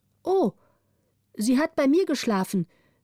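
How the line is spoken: Wise woman calling out. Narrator (German): rief die Weise

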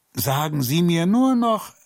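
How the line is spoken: Calling after her. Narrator (German): rief ihr hinterher

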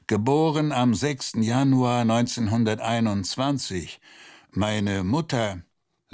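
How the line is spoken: Groaning. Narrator (German): stöhnte

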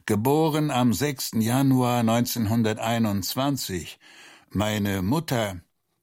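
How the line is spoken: Groan. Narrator (German): stöhnte er

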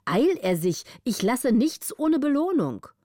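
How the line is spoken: Condescending call. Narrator (German): rief der Graf mit großer Herabschätzung

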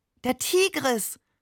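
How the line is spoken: Delighted cry. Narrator (German): rief er entzückt

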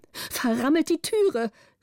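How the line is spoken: Shout. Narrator (German): rief die Gräfin

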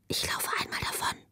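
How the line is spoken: Whispering. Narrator (German): flüsterte sie ihr zu

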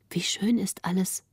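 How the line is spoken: Soft, not to disturb. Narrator (German): sprach Greta leise, um den Grafen nicht zu stören

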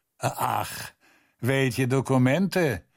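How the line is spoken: Cautious question. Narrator (German): fragte es vorsichtig

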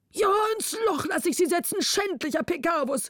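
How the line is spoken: Exhausted king calling. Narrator (German): rief der König erschöpft

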